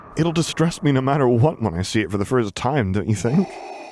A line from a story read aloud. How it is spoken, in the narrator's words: Luke countered with a nervous laugh that he didn't really feel